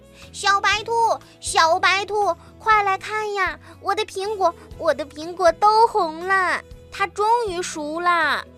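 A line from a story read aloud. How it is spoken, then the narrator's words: Small animal shouting loudly. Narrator (Chinese): 小松鼠大声地喊着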